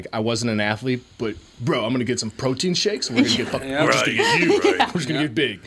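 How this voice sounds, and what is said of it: Imitates a gym bro voice. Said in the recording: “That's a really good impression you're doing there.”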